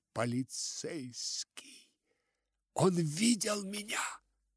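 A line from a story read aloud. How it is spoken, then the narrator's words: Frantic whisper in ear. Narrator (Russian): мисс Верлок и шепнула, обезумевший ему на ухо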